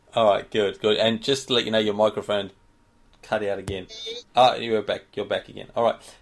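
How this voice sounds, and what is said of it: Australian accent. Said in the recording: “it's my Aussie accent”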